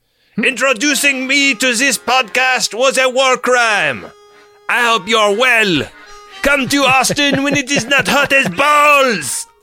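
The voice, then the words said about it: Put-on French accent. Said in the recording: “Please do the rest of this message as VC French moviegoer ... There's no better word to hear in that accent than”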